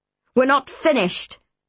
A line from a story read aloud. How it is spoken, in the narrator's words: Neptune barked